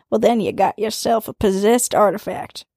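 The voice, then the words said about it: Put-on twangy accent. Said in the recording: “You had a real twang. ... That was like the perfect voice for that, though.”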